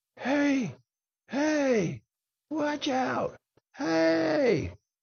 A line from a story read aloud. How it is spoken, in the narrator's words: he started yelling